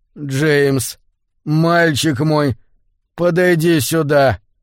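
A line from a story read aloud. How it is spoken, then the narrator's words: Dull, lifeless voice. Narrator (Russian): Голос звучал глухо и безжизненно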